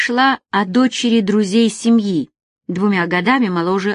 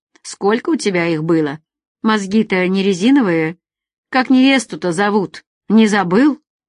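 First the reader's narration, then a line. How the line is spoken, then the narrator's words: Contented laugh. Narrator (Russian): Алекс довольно рассмеялся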